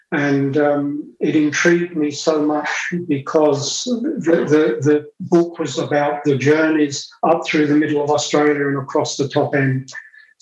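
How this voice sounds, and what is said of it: English Cockney and Essex accent. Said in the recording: “It's from England, but my dad was a Cockney, so I have a very Cockney accent... So I also have an Essex accent as well.”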